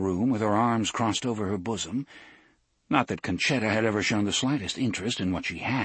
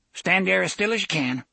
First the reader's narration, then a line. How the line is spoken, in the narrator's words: Conchetta said curtly